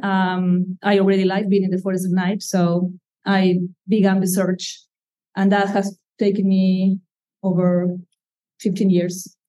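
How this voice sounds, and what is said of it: Slight Argentine Spanish accent. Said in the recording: “you have a slight accent ... I come from Argentina ... the accent has stayed with me”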